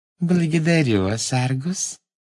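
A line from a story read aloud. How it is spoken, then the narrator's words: Sweet voice. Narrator (Russian): сладким голоском сказала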